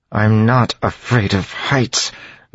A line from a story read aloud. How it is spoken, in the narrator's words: Vin said through gritted teeth